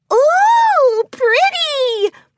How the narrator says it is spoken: Pinkie chirped

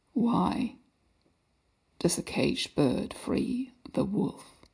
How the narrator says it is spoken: His voice was ravaged gravel, each word scraping raw from a throat unused to human speech

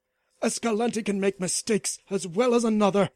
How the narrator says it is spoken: snapped Dion, sweating at the mere thought of failure

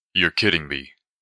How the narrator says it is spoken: Then, calmly

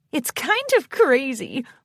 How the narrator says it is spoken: Moonlight gave a devious little chuckle,

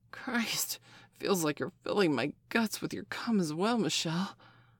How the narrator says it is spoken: Steph gasped

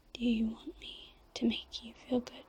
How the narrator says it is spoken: whispered

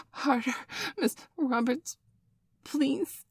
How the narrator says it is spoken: Bailey whined

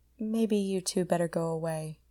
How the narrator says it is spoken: Connie said faintly

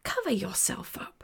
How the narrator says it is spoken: I hissed

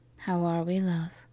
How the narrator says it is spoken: softly asked

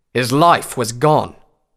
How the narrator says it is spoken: Redbrand said sternly

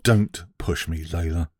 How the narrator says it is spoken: I said through gritted teeth

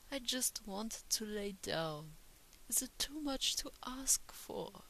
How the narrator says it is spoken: She whimpered, frustrated

